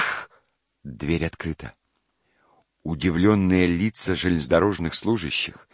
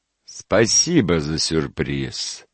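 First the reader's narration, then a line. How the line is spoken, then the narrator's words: Gloomy husband. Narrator (Russian): мрачно ответил муж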